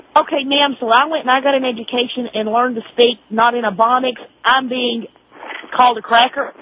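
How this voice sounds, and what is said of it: Southern American drawl. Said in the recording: “I've got a southern drawl.”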